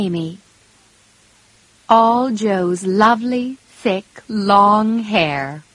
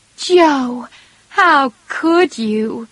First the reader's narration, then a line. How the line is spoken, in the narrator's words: cried Meg